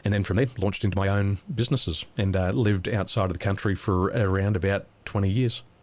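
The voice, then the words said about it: Australian accent. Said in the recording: “I sound Aussie”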